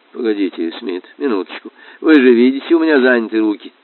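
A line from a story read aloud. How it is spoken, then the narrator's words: Flustered muttering. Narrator (Russian): учитель бормотал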